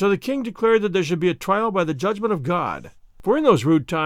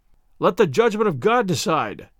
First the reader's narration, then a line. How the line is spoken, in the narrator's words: cried the knights who were present